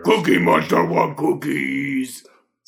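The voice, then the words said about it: Cookie Monster character voice. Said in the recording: “I do a good Cookie Monster impression... Your Cookie Monster impression is right up there”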